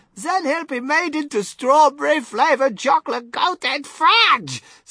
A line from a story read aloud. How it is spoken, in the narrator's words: screamed Mrs